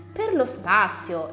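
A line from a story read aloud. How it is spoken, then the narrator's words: Exclamation. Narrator (Italian): esclamò Donovan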